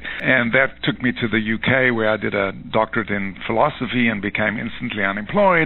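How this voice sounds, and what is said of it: South African accent. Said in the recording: “this strange accent... I'm South African originally”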